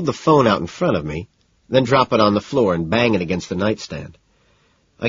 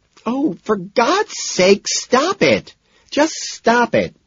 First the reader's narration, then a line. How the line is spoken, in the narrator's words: Evelyn wails